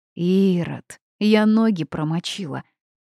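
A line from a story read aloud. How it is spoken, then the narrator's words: Grumbling. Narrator (Russian): Проворчала я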